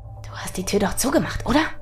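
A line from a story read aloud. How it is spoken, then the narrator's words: Hissed quietly. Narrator (German): zischte er leise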